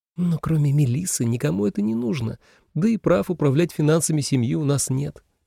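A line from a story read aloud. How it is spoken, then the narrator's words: Muttered under breath. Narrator (Russian): пробормотала себе под нос Селена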